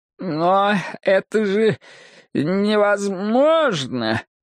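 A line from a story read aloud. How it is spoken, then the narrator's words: Stammering mutter. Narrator (Russian): заикаясь, обормотал он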